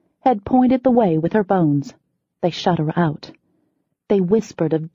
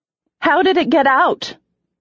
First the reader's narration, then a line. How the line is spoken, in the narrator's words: I said loudly